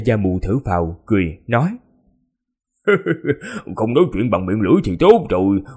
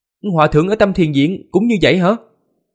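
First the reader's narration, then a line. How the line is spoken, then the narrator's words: Startled cry. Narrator (Vietnamese): Từng Mục ngạc nhiên, kêu lên thất thanh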